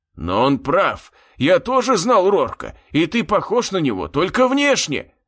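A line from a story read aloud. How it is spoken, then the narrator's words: Shout from a crowd. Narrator (Russian): выкрикнул кто-то из толпы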